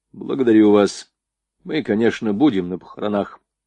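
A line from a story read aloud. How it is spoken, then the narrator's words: Dry reply. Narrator (Russian): сухо ответил прапорщик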